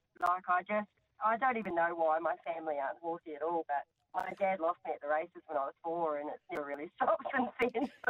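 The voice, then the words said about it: Faint New Zealand accent. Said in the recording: “I did think maybe there was some little accent there. ... I'm from New Zealand. ... it's started to wear off. ... it's fading a little.”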